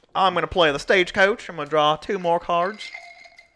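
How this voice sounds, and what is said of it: Put-on Western cowboy accent. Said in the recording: “My shitty accent. ... Are you attempting to do a Western accent? ... I hear it.”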